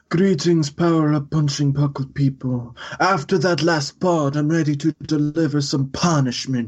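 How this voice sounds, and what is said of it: Mob boss voice. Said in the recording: “do a mob boss voice.”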